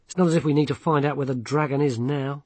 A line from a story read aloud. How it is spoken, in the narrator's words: he added bitterly